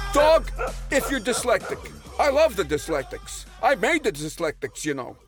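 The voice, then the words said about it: Put-on Jewish accent. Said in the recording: “You seem to have, like, a Jewish accent, and you've been dropping a few Oy Gewalts.”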